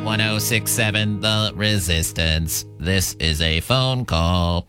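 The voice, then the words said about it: Robot voice. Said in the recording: “doing a robot voice”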